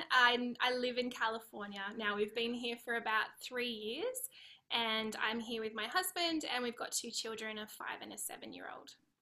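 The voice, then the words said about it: Australian accent. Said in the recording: “you've got an Aussie accent”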